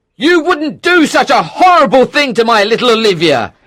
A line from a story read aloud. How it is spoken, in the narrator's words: shouted